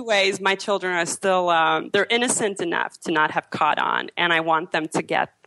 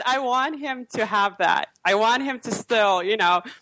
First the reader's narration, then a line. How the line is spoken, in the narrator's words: I laughed and I said